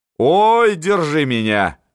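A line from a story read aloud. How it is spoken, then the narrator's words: Laughing loudly. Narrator (Russian): говорила с хохотом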